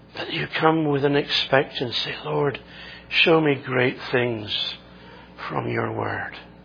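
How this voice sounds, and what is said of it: Scottish accent. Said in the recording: “strange Scottish preacher. With a lovely accent”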